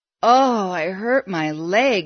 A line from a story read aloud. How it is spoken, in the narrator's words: groaned